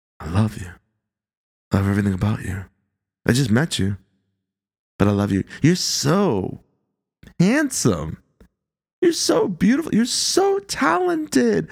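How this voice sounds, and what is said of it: Smooth, seductive radio voice. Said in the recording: “Listen to that radio voice. It is so sexy. ... It's like seductive, right?”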